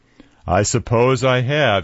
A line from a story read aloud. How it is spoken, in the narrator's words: chuckled